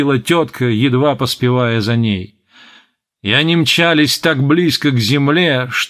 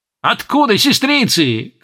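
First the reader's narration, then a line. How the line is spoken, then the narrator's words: Shouted. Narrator (Russian): крикнула тетка Сидония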